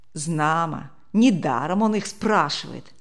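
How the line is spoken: Plain. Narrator (Russian): ответил другой голос

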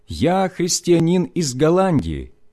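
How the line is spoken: Loud, in German. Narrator (Russian): набрав полную грудь воздуха, я громко сказал по-немецки

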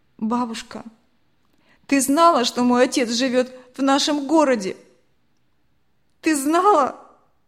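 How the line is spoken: Sudden, sorrowful voice. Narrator (Russian): Этот вопрос был задан так неожиданно и таким скорбным голосом

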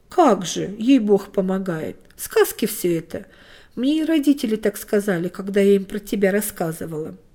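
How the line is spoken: Displeased muttered reply. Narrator (Russian): Тоня снова в ответ недовольно буркнула

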